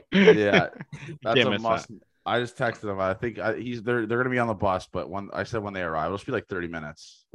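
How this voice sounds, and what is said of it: Rough, worn-out voice. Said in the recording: “My voice is fucked. I sound like Chris Collingsworth.”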